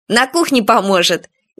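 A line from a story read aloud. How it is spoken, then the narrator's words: Snide suggestion. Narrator (Russian): ехидно предложил кто-то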